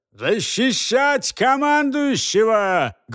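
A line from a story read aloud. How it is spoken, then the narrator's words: Loud, thunderous. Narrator (Russian): громко произнес тот с громовой ответственностью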